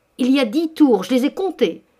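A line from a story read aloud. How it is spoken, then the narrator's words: Exclaimed. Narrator (French): s'écria M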